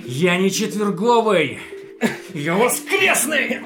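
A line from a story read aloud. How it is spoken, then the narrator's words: Battle shout. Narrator (Russian): Заорал я, бросаясь в атаку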